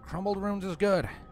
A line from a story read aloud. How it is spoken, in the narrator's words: Applejack's panting voice replied